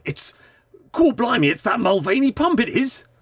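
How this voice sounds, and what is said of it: Put-on East End London accent. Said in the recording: “It's not quite a Bath accent, is it? ... He's recently moved from the East End of London, it sounds like.”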